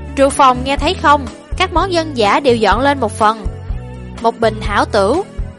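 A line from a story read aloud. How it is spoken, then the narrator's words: Amused laughing reply. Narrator (Vietnamese): Lão bản nương bị hắn chọc cho bật cười, đáp ứng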